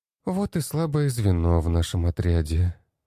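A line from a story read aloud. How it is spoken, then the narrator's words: Sighing. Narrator (Russian): вздохнула Кристина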